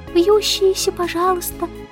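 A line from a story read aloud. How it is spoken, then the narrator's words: Sweet cooing. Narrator (Russian): проворковала Аннабелла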